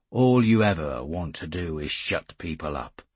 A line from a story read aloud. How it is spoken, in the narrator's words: I said flatly